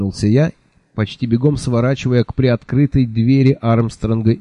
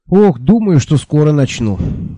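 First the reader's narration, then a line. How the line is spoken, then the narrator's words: Sighing. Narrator (Russian): вздохнул я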